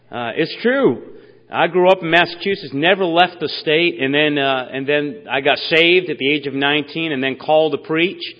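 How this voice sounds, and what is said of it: Slight New England accent. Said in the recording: “I'm from New England, so if I have a little bit of an accent. You know, I never knew I had an accent”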